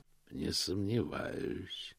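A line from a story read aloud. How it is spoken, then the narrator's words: Quiet. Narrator (Russian): тихо произнес Позолот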